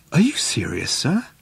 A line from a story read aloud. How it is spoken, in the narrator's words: he said in a small whisper